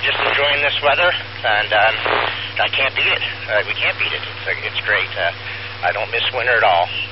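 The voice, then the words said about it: Out of breath while speaking. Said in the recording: “As you can hear, I'm out of breath, but I'm walking pretty fast.”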